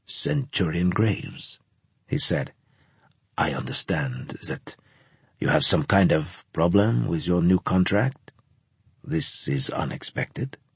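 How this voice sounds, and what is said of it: Slight French accent. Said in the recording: “He had a slight French accent”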